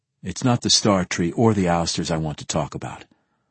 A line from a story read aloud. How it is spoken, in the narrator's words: I said softly